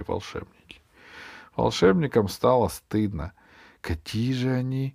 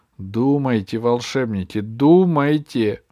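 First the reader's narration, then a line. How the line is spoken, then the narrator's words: Exclaiming. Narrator (Russian): воскликнул Ох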